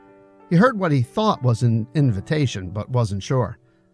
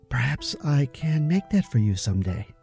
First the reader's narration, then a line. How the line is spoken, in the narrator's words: added very softly